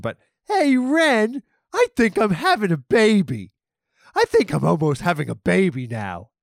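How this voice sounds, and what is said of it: Cartoon character voice. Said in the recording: “good Stimpy impression”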